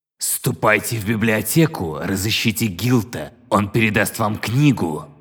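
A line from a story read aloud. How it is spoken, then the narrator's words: Changed, commanding voice. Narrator (Russian): обратилась она к теням другим, властным голосом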